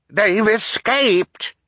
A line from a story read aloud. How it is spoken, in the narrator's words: cried